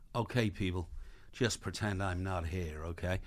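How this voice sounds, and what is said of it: Put-on American accent. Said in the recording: “obviously Richard Gere's got an American accent”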